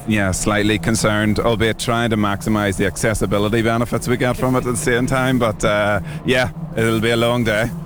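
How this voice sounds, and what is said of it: Northern Irish Belfast accent. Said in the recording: “we can detect it slightly with the accent ... Northern Ireland, Belfast.”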